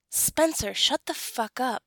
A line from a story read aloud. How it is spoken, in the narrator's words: Zack snaps